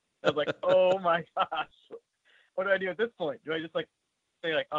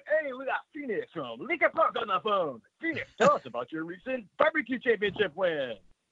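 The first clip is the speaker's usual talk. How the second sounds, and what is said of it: Exaggerated radio announcer voice. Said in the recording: “full radio voice”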